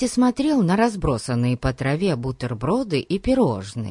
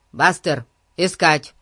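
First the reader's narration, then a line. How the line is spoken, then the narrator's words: Quick command. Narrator (Russian): Тут же приказал Ларри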